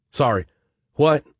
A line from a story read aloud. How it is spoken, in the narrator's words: Jack Trevor stammered